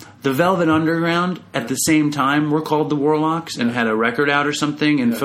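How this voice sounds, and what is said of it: Usual voice. Nothing is said of it.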